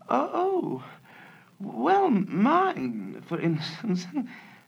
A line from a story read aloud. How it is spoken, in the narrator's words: said Mavis with a feeble laugh